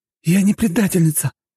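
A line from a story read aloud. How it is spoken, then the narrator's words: Woman's exclamation. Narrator (Russian): воскликнула женщина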